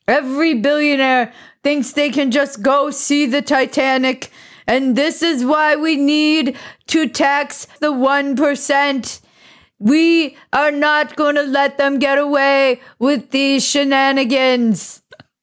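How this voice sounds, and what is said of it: Imitates another person's voice. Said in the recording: “That's my Bernie Sanders ... That's actually a really good Bernie Sanders impression.”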